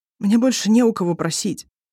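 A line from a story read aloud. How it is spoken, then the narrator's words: Strained. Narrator (Russian): выдавил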